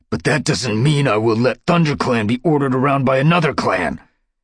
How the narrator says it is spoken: snarled Dustpelt

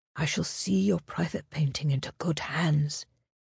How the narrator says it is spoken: he whispered against her cheek

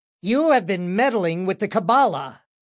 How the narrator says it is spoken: commanded in a loud voice

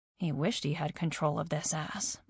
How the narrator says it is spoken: I mumbled

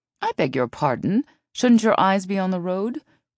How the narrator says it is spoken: Elise asked indignantly

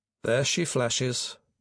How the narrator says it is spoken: Peter murmured to Jamie

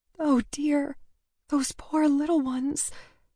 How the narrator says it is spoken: she said mournfully, tears gathering again

